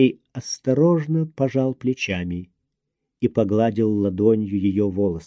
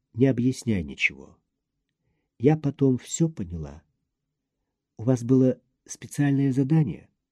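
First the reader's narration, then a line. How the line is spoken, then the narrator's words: Sighing whisper. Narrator (Russian): она вздохнула и прошептала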